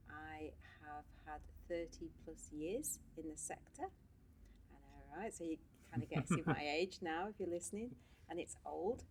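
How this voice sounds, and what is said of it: English-Irish accent. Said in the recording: “As you can tell by my accent, probably. I am half English-Irish”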